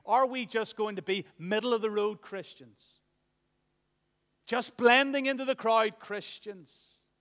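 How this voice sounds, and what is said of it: Impassioned, fervent preaching delivery. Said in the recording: “as you can hear the passion in my voice this morning”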